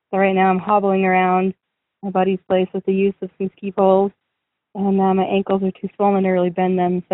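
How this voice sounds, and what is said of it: Hoarse, mostly lost voice. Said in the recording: “My voice is still kind of gone”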